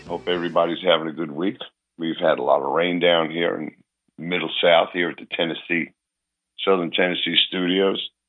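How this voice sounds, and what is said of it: Hoarse, weak recovering voice. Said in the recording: “my voice is coming back a little bit ... I could barely talk ... I was just about whispering ... hopefully by next week my voice will be back to the way it's supposed to be, not sound like a sick boy”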